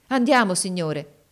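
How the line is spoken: Enthusiastic exclamation. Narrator (Italian): esclamò egli con trasporto

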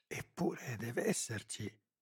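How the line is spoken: Murmured. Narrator (Italian): mormorava

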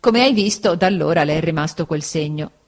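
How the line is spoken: Plain. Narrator (Italian): disse Steerforth

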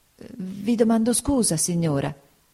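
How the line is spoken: Stammered. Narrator (Italian): balbettò mia madre

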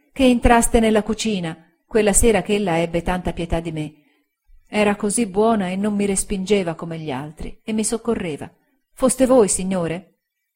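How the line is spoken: Voice choked with tears. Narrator (Italian): disse con voce soffocata dal pianto

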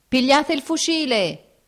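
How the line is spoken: Someone shouting. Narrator (Italian): gridò uno

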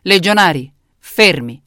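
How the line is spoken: Thundered. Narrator (Italian): tuonò Cesare

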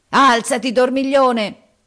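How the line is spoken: Roaring. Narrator (Italian): ruggì Harris

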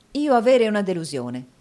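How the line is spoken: Exclamation. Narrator (Italian): esclamò Nicola

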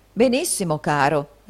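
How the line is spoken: Plain. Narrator (Italian): rispose il riscossore

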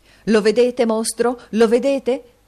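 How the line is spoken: Shouting. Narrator (Italian): gridò il signor Lenville

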